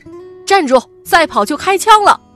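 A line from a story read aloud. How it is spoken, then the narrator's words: Shouting while running. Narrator (Chinese): 施祥宁与战友……一边跑一边喊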